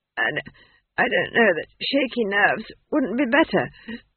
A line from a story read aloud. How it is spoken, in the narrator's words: she wheezed